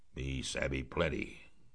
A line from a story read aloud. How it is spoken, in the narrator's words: grunted Queequeg, puffing away at his pipe